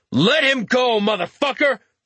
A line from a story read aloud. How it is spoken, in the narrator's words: Richter shouted